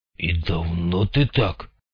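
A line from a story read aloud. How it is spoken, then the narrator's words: Muttered. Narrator (Russian): пробормотал Снейк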